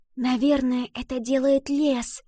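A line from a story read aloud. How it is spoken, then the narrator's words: Whisper. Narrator (Russian): прошептала Ива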